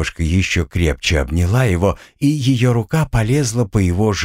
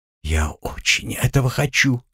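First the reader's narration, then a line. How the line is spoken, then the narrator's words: Soft whisper. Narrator (Russian): тихо прошептала она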